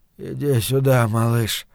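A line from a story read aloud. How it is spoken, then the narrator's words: Absent mumbling. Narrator (Russian): бормотал он, не ощущая смысла собственных слов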